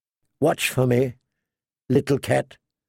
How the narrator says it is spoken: she could hear him whisper

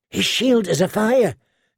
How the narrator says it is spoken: Gendry said in a hushed voice

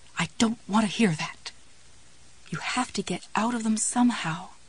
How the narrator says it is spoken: young girl's voice whispered back

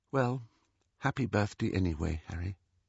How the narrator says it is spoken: Ginny said in a flat little voice

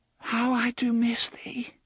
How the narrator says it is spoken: she said in a small and broken voice

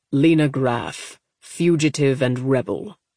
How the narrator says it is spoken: Corda replied coldly

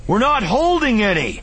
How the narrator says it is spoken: Kanan yelled

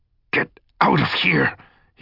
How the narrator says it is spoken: he hissed between clenched teeth

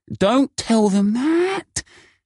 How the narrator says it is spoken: exclaimed Kelvin

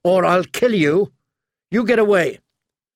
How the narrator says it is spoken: Arya shouted

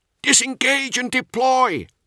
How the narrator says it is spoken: he shouted over the squad net

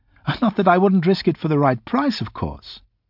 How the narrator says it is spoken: she laughed

